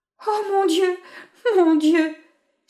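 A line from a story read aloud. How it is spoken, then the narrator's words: Exclaimed. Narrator (French): s'écria Réa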